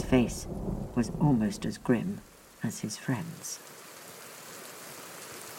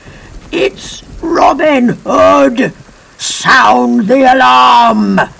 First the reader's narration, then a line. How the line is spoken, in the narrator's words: bellowed